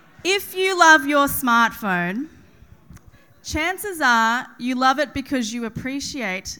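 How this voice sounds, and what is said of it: Usual voice. Nothing is said of it.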